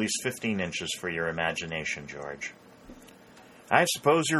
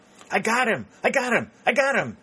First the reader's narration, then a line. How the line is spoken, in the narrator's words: exclaimed Pennington, dancing about as if he were only 12 years old